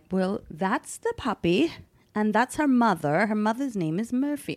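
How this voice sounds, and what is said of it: Poor put-on British accent. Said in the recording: “He was a British guy... This accent's terrible.”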